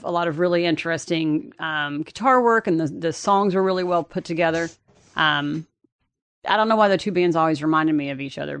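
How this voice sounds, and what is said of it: Thick regional accent. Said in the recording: “Have you heard my accent? ... It's not as thick as yours.”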